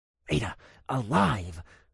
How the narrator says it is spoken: I hissed

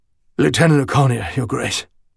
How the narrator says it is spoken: said hoarsely

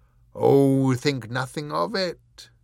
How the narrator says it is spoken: he boomed

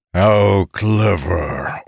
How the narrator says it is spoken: Orathisian growled

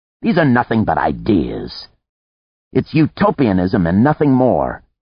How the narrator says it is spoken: Antar said scornfully

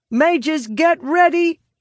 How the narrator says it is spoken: I shout

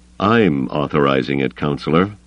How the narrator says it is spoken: Carda said coldly

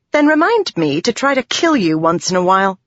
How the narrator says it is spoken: she snapped

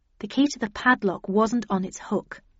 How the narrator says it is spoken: I murmured

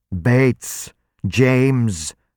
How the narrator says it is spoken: the vampire roared

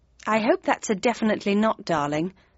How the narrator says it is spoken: I murmured

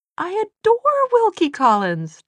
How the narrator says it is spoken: Tessa cried

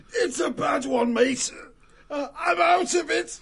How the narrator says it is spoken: said, rasping harshly

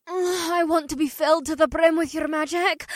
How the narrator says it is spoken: May gasped

